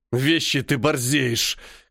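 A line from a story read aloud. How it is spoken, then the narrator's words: Hoarse rasp. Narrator (Russian): хрипит эта мажорщина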